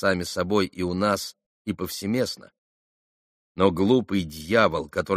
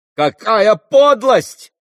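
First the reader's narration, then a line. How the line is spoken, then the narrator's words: Shouting. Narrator (Russian): крикнул Петр Александрович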